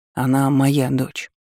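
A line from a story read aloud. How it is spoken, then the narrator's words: Calm. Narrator (Russian): спокойно произнес Власт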